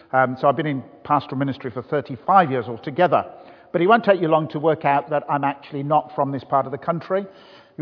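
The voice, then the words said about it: Birmingham accent. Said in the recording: “I come from the beautiful city of Birmingham ... the Birmingham accent goes down okay”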